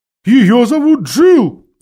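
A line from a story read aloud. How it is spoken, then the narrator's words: Owl's loud shout. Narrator (Russian): громко крикнула сова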